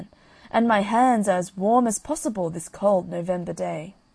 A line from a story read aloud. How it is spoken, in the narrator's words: cried the man